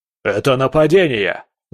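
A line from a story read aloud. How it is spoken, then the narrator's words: Aristocrat yelling. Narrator (Russian): заорал аристократ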